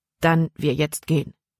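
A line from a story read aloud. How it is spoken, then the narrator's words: Plain. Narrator (German): sagte Jordan erneut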